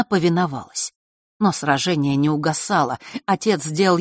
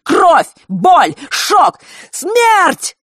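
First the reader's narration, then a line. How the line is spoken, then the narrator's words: Shouting. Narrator (Russian): выкрикнул Фэш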